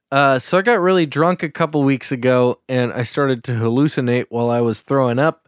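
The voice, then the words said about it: Subtle put-on Minnesota accent. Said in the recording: “I can't drop the Minnesota accent there. ... it's only subtle right now. ... I'm starting to push it more.”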